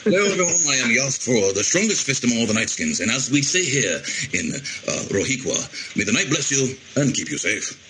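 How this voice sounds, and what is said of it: Character voice. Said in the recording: “do the voice? ... a send-off with the voice”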